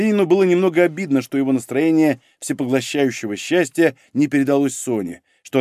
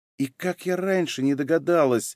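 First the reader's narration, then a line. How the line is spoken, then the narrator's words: Sudden whisper. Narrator (Russian): прошептала вдруг Софья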